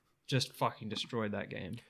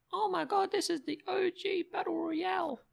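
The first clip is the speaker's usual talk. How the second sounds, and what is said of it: Imitates an excited kid's voice. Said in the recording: “great kids impression.”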